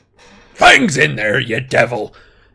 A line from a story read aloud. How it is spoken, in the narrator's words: Hagrid bellowed